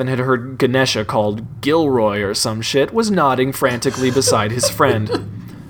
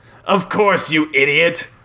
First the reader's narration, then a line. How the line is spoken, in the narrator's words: Belson growled